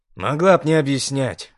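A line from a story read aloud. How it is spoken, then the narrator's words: Snort. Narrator (Russian): хмыкнул Дред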